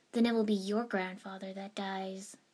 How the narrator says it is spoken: I said calmly, reasonably

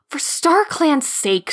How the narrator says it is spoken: Squirrel Flight snapped

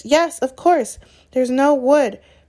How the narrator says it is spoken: Hermione cried

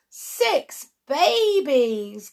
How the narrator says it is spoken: cried Sally

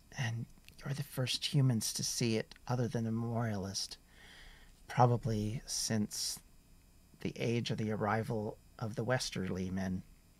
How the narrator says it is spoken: she very quietly says

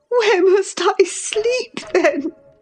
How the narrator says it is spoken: I sobbed

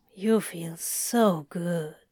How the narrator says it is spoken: he murmured sleepily

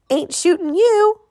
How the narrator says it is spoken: Russell whined

